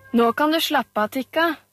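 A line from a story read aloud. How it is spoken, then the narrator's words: Shouted. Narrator (Norwegian): ropte han til dama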